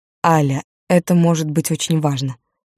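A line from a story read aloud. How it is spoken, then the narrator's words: Soft, gentle. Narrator (Russian): мягко сказал Константин Павлович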